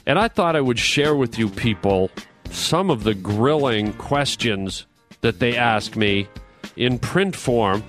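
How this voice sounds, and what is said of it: Canadian accent. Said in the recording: “detected in my accent, I am a Canadian boy by birth”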